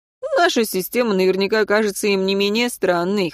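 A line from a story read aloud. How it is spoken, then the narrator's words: Wry snort. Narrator (Russian): хмыкнул Мартин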